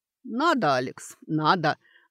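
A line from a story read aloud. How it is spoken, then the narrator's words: Gleeful grinning. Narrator (Russian): радостно оскалился ректор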